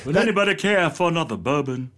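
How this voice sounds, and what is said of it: Dignified Frank Underwood accent impression. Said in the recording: “that's actually kind of a dignified accent ... That was my Frank ... Frank Underwood”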